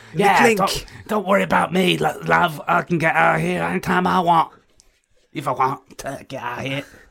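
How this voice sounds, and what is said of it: Put-on London accent. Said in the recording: “That's my bloody London Helen Mirren accent, innit? ... It is a fascinating mix of Scottish and Chinese.”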